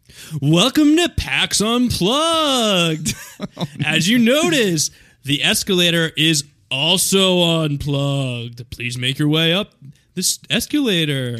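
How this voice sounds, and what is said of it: Movie-phone announcer voice impression. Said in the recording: “movie phone voice? ... that impression”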